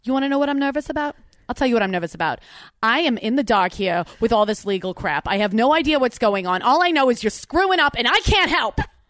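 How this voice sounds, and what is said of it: Attempted New Jersey accent. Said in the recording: “I'll do it in a Jersey accent. I'll try to do a Jersey accent.”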